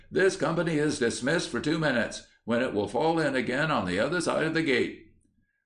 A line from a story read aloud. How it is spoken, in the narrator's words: he shouted